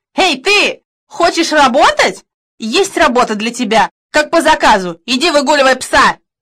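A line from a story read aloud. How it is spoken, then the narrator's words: Gloating shout. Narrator (Russian): В глазах фрау Штейн загорелся злорадный огонек, и она крикнула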